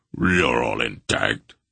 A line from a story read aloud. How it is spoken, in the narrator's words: Beric rumbled